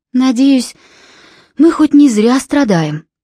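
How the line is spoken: Sighing. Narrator (Russian): вздохнула Филиппа

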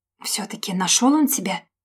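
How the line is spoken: Terrified whisper. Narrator (Russian): С ужасом прошептала мне Оля на ухо, чтобы никто не слышал

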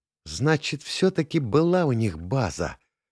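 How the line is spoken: Loud whisper. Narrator (Russian): громко зашептала Таля

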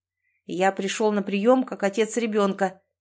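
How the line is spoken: Cold tone. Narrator (Russian): холодным тоном сообщает он

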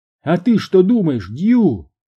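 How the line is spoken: Shout. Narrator (Russian): крикнула Маргарет

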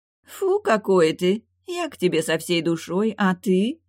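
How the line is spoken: Capricious drawl. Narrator (Russian): Капризно протянула озерница

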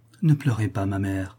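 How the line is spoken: Gentle. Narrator (French): dit-elle doucement

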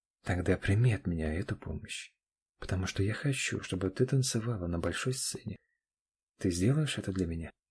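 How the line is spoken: Very quiet, private question. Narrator (Russian): Вопрос Олега прозвучал слишком тихо, словно предназначался только для Аниных ушей

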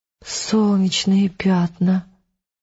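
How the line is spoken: Bewildered exhalation. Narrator (Russian): растерянно выдохнула Элис

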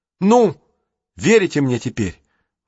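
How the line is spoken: Exclamation. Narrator (Russian): воскликнул Джейсон

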